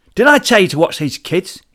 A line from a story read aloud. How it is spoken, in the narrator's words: shouted again